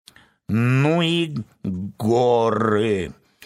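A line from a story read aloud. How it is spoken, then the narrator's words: Tired hoarse croak. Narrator (Russian): устало прохрипела ворона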